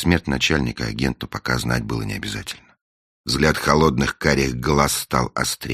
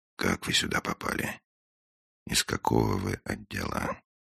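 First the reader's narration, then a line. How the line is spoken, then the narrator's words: Very quiet, after pause. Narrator (Russian): После паузы, очень тихо, Финч спросил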